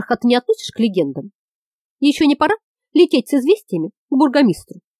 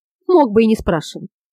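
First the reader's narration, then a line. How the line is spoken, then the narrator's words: Sad chuckle. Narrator (Russian): Грустно усмехнулся Лукус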